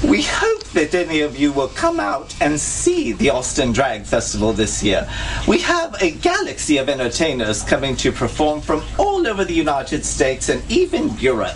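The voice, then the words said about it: Poor put-on British accent. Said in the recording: “my horrible British accent that I'm trying to pull off ... it doesn't really work”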